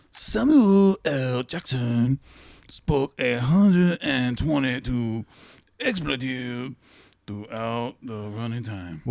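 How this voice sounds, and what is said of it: Raspy, smoker-like cartoonish character voice. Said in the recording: “You sound like a guy that has smoked too much. ... Why do you sound like a Japanese version of Cartman?”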